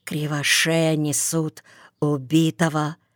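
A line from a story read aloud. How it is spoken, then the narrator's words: Villagers whispering. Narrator (Russian): на заваленках зашептались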